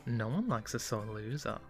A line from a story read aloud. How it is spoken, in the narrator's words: Amber giggled